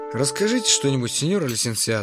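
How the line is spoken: Sighing. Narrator (Russian): вздохнул я

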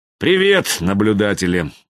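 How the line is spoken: Glum reply. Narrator (Russian): отозвался Хаецкий уныло

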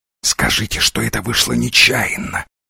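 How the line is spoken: Whispered in English. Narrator (Russian): зашептал Дивайн по-английски

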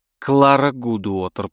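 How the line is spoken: Muttering. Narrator (Russian): пробормотала она

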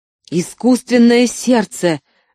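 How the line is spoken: Furious shout. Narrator (Russian): бешено закричал Шрей

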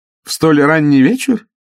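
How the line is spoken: Laughing. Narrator (Russian): мадам снова засмеялась

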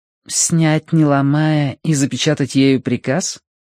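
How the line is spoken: Grim smile. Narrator (Russian): Минкс мрачно улыбнулась

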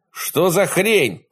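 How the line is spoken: Shout. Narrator (Russian): прокричал Кэл

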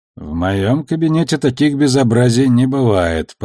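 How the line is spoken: Grumble. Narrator (Russian): проворчала Авасарала

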